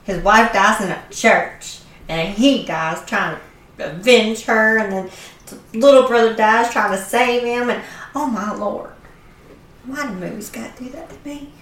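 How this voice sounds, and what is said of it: Tearful voice with strong accent. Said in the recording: “Your accent comes up more when you're crying.”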